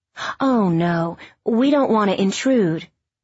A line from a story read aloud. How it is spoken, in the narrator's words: Corinne said